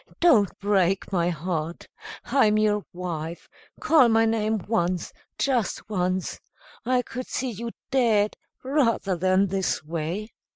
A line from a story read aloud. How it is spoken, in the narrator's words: cried again